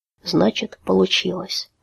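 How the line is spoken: Soundless mouthed whisper. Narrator (Russian): одними губами прошептал он

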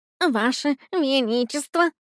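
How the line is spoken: Rabbit mumbling. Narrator (Russian): пробормотал кролик

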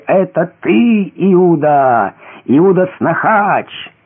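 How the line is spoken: Crowd shouting with laughter. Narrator (Russian): Корчась от хохота люди кричали

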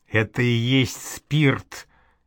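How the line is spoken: Quiet explanation. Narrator (Russian): тихо пояснил Бусыге книжник

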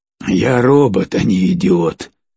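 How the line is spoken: Snorting remark. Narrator (Russian): хмыкнул Фредди

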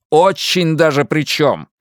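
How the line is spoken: Barking. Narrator (Russian): рявкнул Луис

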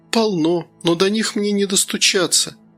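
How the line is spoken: Sad wry chuckle. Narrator (Russian): Доминика печально усмехнулась

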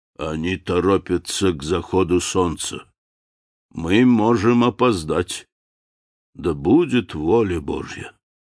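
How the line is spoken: Muffled voice. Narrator (Russian): Он продолжал глухим голосом

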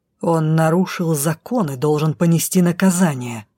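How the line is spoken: Low growl. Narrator (Russian): зарычал Дроу глухо

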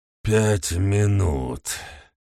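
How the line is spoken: Growled. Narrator (Russian): прорычал

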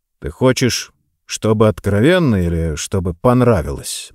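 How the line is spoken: Gloomy answer. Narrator (Russian): мрачно отвечаю я

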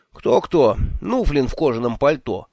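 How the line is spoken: Thoughtless blurt. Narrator (Russian): сдуру брякнул я

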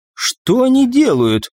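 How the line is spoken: Indignant question. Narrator (Russian): возмущенно спросила Альва

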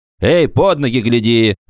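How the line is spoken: Shout, man. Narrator (Russian): крикнул ему стоявший на троллейбусной остановке гражданин

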